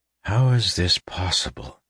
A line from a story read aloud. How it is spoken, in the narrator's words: he murmured